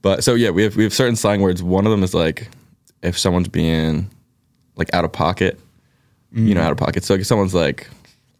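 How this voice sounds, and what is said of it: Thick Philadelphia accent. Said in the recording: “my Philly accent's gonna come out like really thick ... dude's got a Philly accent, like hardcore ... it just gets thick”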